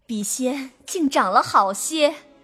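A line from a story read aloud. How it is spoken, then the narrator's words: Laughing. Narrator (Chinese): 元妃……笑道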